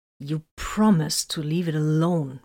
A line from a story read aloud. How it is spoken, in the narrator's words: Vox growled